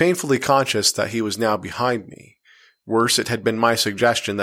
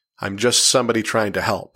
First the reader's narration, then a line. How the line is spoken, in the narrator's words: said